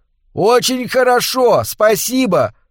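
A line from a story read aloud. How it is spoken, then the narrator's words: Shouted. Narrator (Russian): выкрикнул Картер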